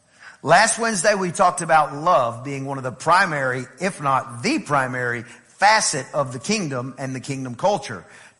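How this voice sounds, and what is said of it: Southern US accent. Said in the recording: “I know I'm from East Texas ... I don't have to tell many people I'm from the South. When I travel, they go, are you from Georgia?”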